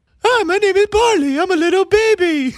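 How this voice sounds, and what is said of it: Dog character voice, babyish. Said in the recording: “What's your dog voice ... You got a dog voice”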